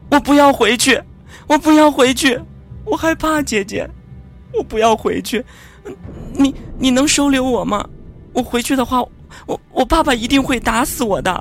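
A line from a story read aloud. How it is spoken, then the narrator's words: Crying little girl. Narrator (Chinese): 小女孩哇的一声就哭了起来，说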